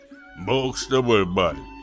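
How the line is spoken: Grumbling. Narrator (Russian): проворчал Клим

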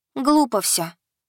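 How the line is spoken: Sad sigh. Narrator (Russian): печально вздохнула Янка

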